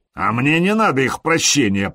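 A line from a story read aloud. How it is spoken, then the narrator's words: Growling. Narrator (Russian): прорычал Харальд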